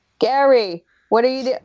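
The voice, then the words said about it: Terrible Russell Brand impression. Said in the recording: “Russell Brand being like ... I do a terrible accent, obviously.”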